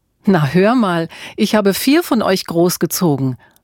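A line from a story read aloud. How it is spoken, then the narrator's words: Laughing mother. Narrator (German): lachte Mutter Auguste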